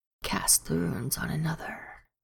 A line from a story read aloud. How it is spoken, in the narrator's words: it whispered